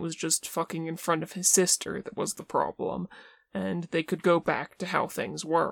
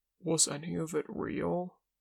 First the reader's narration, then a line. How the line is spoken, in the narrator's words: smiles sadly